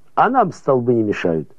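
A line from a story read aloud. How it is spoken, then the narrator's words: Dismissive, laughing. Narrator (Russian): отмахнулся Кильдикс и засмеялся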